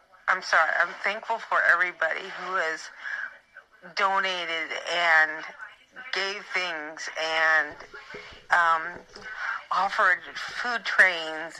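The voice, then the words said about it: Emotional, choked-up voice. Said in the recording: “I guess I'm getting emotional”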